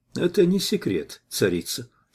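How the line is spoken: Calm reply. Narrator (Russian): спокойно ответил я

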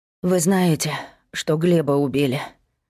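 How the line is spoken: Sighing. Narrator (Russian): Вздохнула верхняя соседка

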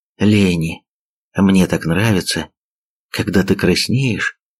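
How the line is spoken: Whisper. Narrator (Russian): прошептал

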